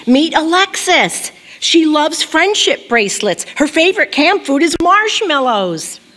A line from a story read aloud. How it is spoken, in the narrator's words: my mom shouted